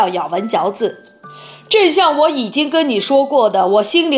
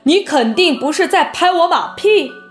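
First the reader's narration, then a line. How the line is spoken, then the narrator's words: Giant calling out. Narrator (Chinese): 好心眼巨人叫道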